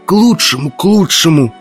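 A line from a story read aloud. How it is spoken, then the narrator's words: Hoarse wheeze. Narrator (Russian): просипел Изон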